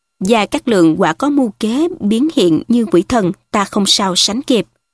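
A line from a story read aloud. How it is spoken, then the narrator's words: Sighing lament. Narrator (Vietnamese): Từ Mã Ý thở dài than rằng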